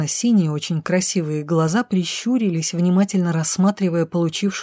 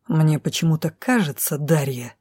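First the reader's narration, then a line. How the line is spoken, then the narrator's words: Menacing hiss. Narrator (Russian): недобро прошипел мужчина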